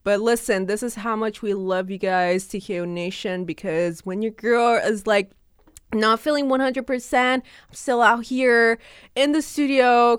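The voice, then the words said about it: Voice slightly off, short of breath. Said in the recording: “my voice is kind of sounding a little bit off ... because of this horrible cold that I have ... affected my lung capacity ... huff and puff”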